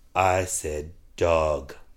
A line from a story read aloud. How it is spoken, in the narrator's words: The young officer answered calmly